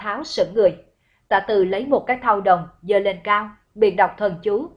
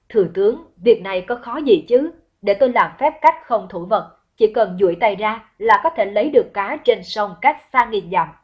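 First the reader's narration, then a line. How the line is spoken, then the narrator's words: Loud laughter. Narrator (Vietnamese): Tả Từ cười lớn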